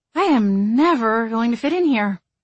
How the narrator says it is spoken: she sighed

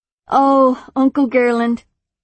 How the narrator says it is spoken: Athene sighed happily

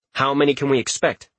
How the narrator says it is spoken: Richter asked a bit impatiently

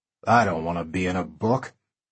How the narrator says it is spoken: Bill said with a grunt

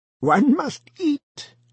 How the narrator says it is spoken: he cackled forth, very friendly

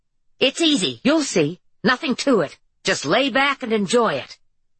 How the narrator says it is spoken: Nelson bent toward Harper's ear and rather loudly said

